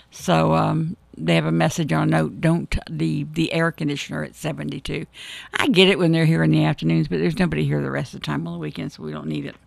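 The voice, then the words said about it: Rusty, froggy hoarse voice. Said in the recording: “As you can tell, my voice is a little rusty. ... But it's a little froggy.”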